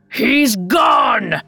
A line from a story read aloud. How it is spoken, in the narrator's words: The king roared